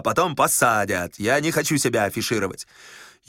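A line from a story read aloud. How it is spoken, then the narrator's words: Spiteful. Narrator (Russian): сказал Корейка злобно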